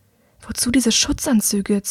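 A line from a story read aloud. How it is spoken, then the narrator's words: Hissed. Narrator (German): zischt sie ihm zu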